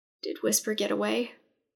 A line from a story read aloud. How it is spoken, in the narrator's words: she asked in a strained voice